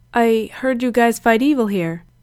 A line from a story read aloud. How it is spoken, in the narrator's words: Gerard said hesitantly